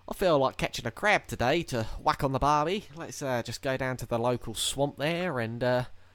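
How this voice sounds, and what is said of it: Bad put-on Australian accent. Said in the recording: “I like sincerely apologise for a shit accent”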